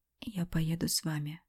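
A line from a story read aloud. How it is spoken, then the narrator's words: Whisper. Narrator (Russian): прошептала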